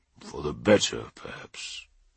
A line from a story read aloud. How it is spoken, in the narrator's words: muttered Russ